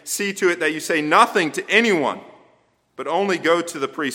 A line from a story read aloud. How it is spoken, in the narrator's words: sternly warned and rebuked, and Jesus saying